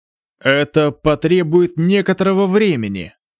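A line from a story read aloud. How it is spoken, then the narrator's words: Embarrassed, muffled laugh. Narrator (Russian): первый старейшина смутился и лишь глухо рассмеялся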